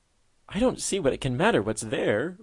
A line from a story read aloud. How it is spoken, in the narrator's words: whimpered she